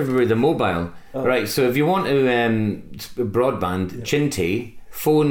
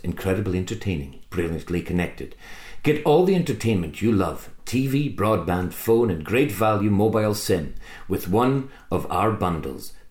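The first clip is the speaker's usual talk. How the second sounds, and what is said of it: Mock TV advert announcer voice. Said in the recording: “in my advert voice”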